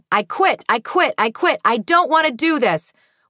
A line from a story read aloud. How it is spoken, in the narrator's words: Portia was screaming